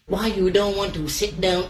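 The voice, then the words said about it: Put-on Vietnamese accent. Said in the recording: “the challenge is you have to do the same line, but in different accents ... Some sort of Asian? ... That's Vietnamese.”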